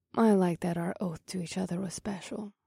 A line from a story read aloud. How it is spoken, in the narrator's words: Mahini said in a soft voice